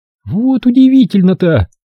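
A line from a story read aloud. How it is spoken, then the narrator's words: Mocking remark. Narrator (Russian): насмешливо заметила Рен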